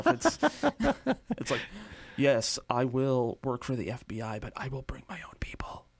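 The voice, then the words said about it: James Spader impression as Raymond Reddington. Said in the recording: “I can't do a James Spader voice. ... That's pretty good, huh? Give that a 7.”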